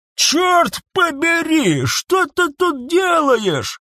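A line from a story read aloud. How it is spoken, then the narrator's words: Yelling. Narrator (Russian): орал Бобылин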